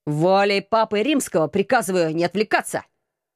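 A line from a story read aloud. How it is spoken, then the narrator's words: Stern shout. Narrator (Russian): Строго прикрикнул командор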